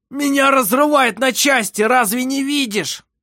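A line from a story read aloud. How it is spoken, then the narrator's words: Sudden desperate shout. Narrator (Russian): Внезапно он прокричал в беспомощном отчаянии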